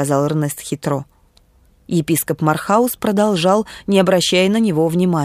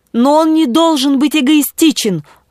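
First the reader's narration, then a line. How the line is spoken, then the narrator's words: Bishop's exclamation. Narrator (Russian): воскликнул епископ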